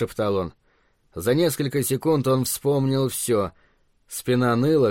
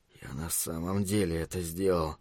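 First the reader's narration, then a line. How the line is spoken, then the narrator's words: Mumbled. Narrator (Russian): пробормотал он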